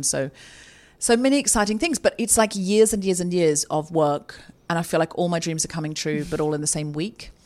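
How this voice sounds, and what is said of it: Excited, slightly hyper voice. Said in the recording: “slightly adrenaline. You can hear it in my voice. Slightly hyper”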